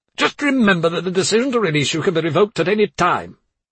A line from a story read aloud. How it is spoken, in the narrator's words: he barked